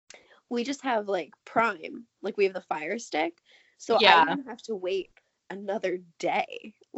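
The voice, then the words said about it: Scratchy, hoarse voice. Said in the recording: “my voice is like getting all scratchy”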